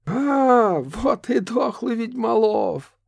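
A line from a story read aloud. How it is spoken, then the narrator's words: Laughing, strange metallic voice. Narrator (Russian): рассмеялась Несса чужим металлическим голосом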